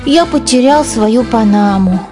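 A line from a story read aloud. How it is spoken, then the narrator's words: Sad. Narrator (Russian): печально сказал Генри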